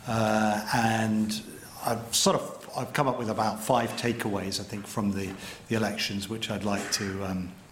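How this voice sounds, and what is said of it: British accent. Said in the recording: “As you can probably hear from my accent, although I work for the New York Times, I have an American passport. I was actually raised in Britain.”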